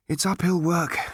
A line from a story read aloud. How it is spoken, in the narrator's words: said Arthur wearily